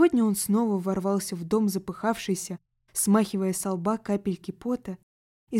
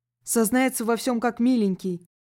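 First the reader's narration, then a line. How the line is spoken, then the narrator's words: Breathless boy giggling. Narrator (Russian): хихикнул паренек, пытаясь выровнять дыхание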